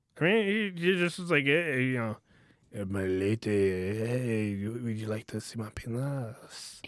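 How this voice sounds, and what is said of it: Bad put-on Italian accent. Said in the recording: “a weird Italian accent ... That was bad”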